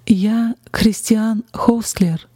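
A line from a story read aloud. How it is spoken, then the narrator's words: Slow, broken German. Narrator (Russian): он медленно произнес на ломаном немецком языке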